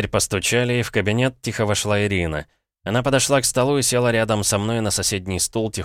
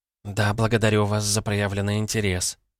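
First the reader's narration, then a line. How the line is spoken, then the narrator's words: Muttering. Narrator (Russian): пробормотала Ирина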